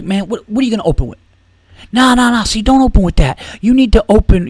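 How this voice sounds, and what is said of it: Imitates another man's voice. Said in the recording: “My impression totally just gave away that he was black.”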